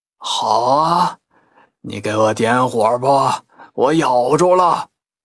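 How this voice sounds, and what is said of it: Hoarse, raspy character voice. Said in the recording (Chinese): “那个沙哑的声音说了”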